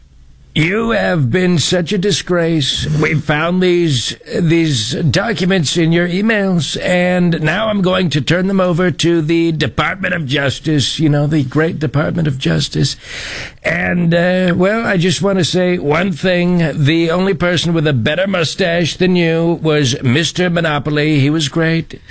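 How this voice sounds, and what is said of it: Donald Trump impression. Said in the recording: “give us your best Trump impersonating an Iranian hacker trolling John Bolton”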